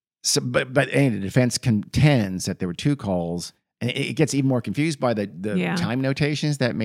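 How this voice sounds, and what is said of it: Usual voice. Nothing is said of it.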